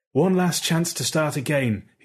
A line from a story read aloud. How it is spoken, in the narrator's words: he had pleaded